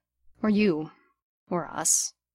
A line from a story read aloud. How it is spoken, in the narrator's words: demanded, and with his voice softening, added